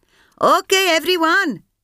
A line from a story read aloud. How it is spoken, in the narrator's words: Sampath shouted to her troops